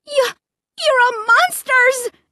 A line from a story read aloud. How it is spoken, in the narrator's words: I screamed